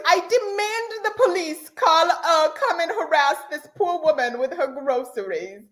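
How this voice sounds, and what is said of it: Put-on British accent. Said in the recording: “That was my British accent.”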